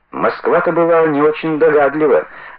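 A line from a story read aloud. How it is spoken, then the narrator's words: Laughing. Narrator (Russian): засмеялся Бардин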